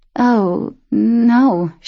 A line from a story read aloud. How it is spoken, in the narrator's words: she stammered